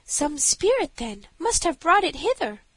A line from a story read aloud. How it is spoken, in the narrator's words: cried the princess